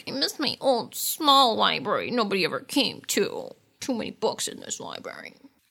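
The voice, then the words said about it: Imitates another person's voice. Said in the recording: “Great Sarah Michelle Gellar impression.”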